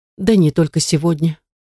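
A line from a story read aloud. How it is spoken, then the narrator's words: Tired reply. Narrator (Russian): устало отозвалась подруга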